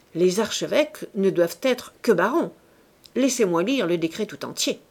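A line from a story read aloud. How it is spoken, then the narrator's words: Curt, dry. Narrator (French): dit sèchement le ministre de la Justice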